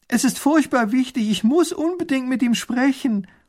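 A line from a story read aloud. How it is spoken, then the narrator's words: Calling after someone. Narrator (German): ruft hinter der Kutsche her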